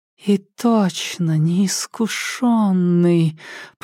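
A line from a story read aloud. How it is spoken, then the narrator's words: Close, breathy cooing. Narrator (Russian): проворковала женщина, наклоняясь к нему и обдавая своим дыханием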